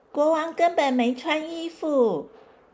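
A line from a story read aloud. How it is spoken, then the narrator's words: Loud little boy. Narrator (Chinese): 有个小男孩大声的说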